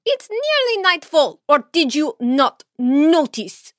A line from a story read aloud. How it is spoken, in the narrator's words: She snarled